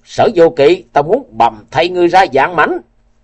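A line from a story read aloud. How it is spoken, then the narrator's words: Loud shout. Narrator (Vietnamese): Liễu Kiệt quát lớn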